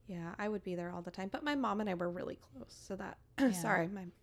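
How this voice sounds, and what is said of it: Voice cracking, emotional. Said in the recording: “I'm not getting emotional. My voice is just cracking.”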